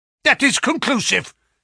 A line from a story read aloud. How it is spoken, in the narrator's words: said the Professor, glaring angrily